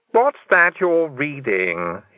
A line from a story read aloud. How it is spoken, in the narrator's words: he snapped